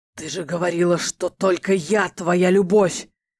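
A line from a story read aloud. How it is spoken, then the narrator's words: Pained, contemptuous growl. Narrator (Russian): Кривясь то ли от боли, то ли от презрения, рычал Эрго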